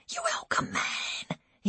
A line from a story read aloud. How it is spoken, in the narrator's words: he whispered